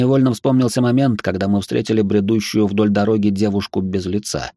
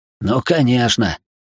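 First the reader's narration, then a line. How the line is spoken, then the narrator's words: Unsure snort. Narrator (Russian): уже не так уверенно хмыкнул парень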